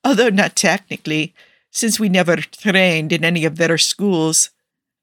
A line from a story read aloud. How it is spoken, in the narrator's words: Nikki laughs